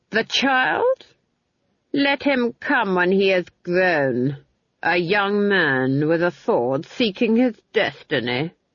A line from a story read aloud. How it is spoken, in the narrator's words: the Duke sneered